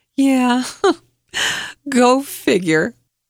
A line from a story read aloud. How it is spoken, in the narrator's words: I ... while the laughing yet pathetic tears just rolled down my cheeks and said